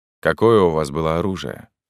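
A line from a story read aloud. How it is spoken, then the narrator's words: Plain. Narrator (Russian): спросил Атон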